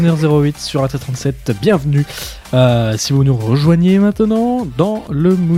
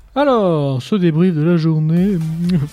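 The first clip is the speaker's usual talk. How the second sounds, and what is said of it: Imitates a cartoon character's voice. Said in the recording (French): “prends la voix de Jerry dans Total Dispatch”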